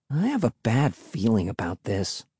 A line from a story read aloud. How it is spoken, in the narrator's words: she muttered